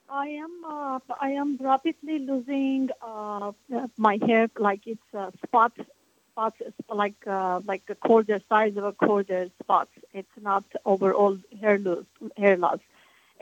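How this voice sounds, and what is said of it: Very heavy accent, hard to understand. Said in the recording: “You have a very heavy accent. I'm having trouble hearing what you're saying.”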